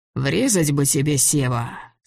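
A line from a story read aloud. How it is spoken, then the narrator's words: Weary. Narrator (Russian): сказал Григорий устало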